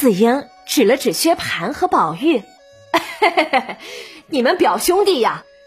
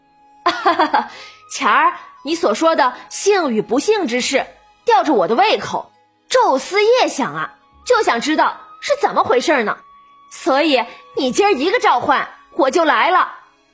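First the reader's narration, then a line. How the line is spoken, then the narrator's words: Laughing. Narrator (Chinese): 宝玉笑着对冯子英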